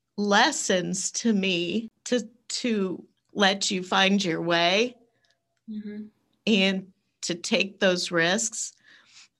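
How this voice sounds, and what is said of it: Emotional, choked-up voice. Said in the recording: “sorry, I'm getting emotional”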